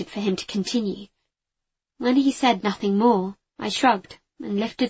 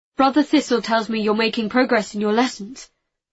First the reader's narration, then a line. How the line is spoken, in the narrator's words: Arcus said quickly, almost as if he didn't want me to leave